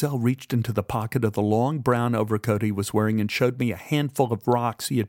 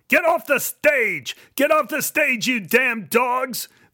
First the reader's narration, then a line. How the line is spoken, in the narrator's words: The audience howled